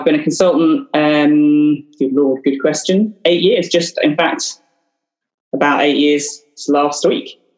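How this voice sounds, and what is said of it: Newcastle (Northeast English) accent. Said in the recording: “Obviously, um, the accent, as you can tell. Still say Newcastle.”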